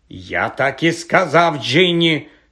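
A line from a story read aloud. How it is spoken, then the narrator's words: Angry reply. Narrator (Ukrainian): сердито озвався Персі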